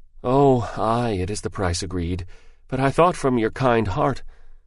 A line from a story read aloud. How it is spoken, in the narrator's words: the man answered, sighing